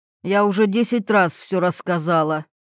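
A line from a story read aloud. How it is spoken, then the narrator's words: Displeased old woman's mutter. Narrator (Russian): недовольно буркнула старуха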